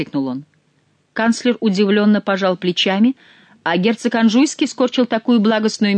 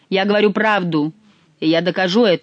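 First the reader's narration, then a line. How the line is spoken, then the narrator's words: Firm, authoritative declaration. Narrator (Russian): заявил Шико непререкаемым тоном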